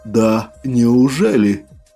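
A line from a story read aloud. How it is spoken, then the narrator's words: Low, chesty, unfamiliar growl. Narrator (Russian): Рыкнул я каким-то чужим, низким и грудным голосом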